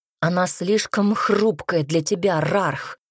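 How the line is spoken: Growled. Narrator (Russian): зарычал Айрон

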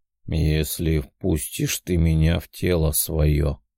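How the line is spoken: Thoughtful drawl, angel. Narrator (Russian): задумчиво протянул ангел

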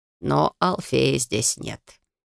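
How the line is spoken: Soft reminder, advisor. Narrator (Russian): мягко напомнил советник

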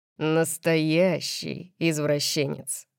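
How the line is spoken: Growled. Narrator (Russian): прорычал он

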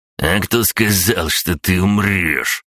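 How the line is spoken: Growling man. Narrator (Russian): прорычал мужик

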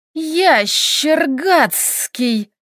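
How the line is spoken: Hissing. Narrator (Russian): прошипела Доменика

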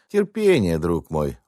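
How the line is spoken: Gentle objection. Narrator (Russian): ласково возражал

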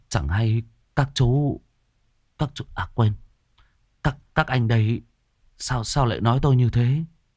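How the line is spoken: Trembling voice. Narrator (Vietnamese): Anh Kiên run run

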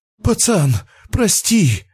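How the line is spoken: Pleading. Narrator (Russian): взмолился тот, который и затеял разговор

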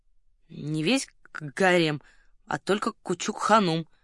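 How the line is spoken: Reluctant grumbling. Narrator (Russian): пробурчал титулярный советник, явно не желая углубляться в подробности

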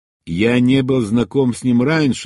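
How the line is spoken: Plain. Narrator (Russian): ответил я

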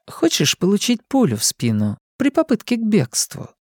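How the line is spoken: Sweet-toned question. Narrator (Russian): милым тоном спросила Артега

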